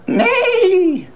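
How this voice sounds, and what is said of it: Imitates a horse neighing. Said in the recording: “That was my horse impression saying no.”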